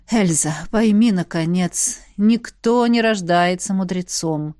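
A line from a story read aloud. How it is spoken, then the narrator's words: Sighing. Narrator (Russian): вздохнула Элисандра, заметив мои сомнения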